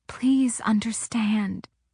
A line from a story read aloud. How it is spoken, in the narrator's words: she said softly